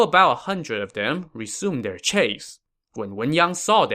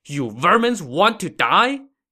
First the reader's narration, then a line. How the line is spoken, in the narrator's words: he shouted